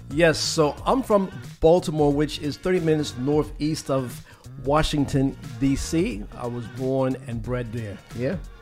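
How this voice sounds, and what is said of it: Slight accent. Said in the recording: “there is a bit of an accent.”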